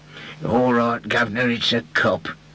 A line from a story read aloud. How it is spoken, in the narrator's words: growled the man